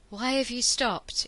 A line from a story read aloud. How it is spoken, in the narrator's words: Ianto asked a trifle breathlessly